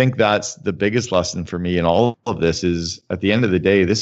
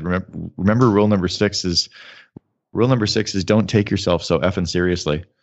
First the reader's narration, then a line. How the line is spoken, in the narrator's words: And Gorbachev laughed and he said